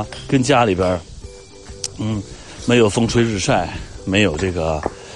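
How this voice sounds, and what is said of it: Usual voice. Nothing is said of it.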